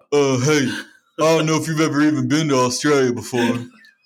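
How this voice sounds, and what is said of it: Put-on Australian accent. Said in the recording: “That was a real good Australian impression.”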